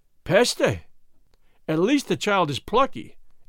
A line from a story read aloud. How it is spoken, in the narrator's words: exclaimed Monsieur LeBlanc, in French, astonished